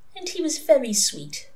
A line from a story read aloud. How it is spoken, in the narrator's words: said Mary Hodges wistfully